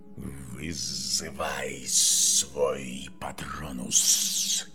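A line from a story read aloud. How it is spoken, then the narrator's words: Hissing snake. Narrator (Russian): прошипела змея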